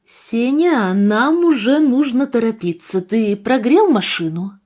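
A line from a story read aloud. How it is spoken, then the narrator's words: Loud commanding tone. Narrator (Russian): повелительным тоном произнесла Екатерина Андреевна, достаточно громко, чтобы услышал не только муж, но и все в доме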